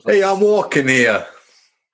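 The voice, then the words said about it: Put-on New York accent. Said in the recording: “maybe you could do a New York accent for us ... Coffee in a New York accent is one of my favourite sounds”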